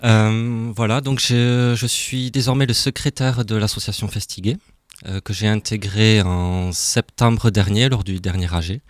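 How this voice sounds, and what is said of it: Slight Toulouse French accent. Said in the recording (French): “ça s'entend, je ne suis pas d'ici, j'ai un petit accent de Toulouse”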